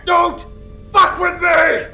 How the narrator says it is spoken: Jack bellowed

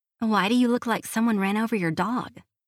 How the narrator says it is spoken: Hallie asks

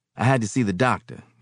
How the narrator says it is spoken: he said

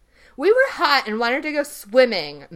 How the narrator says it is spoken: Matt snapped

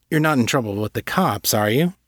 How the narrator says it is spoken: Callie chuckled

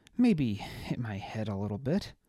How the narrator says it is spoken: he mumbled

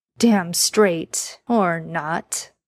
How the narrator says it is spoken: Dean said with a chuckle

